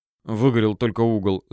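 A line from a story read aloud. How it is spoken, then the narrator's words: Fat man mumbling. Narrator (Russian): забормотал толстяк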